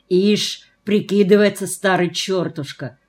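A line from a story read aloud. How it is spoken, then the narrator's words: Spoken through gritted teeth. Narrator (Russian): сквозь зубы проговорил Фома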